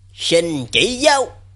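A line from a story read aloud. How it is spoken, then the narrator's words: Angry voice. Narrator (Vietnamese): hắn giọng đầy tức giận nói với Thạch Ngọc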